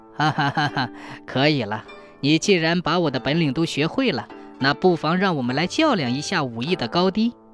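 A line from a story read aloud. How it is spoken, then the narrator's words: Laughing. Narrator (Chinese): 和尚又笑了，说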